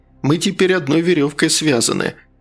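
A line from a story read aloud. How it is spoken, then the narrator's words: Dry laugh. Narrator (Russian): Фигаро сухо засмеялся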